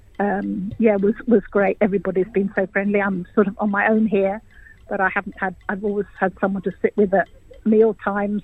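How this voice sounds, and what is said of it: English accent. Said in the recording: “You can probably hear my accent. I'm English”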